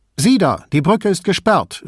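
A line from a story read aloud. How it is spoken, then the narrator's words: Called out. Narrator (German): rief eine Stimme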